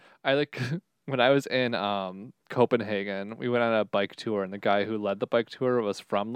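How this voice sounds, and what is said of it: Usual voice. Nothing is said of it.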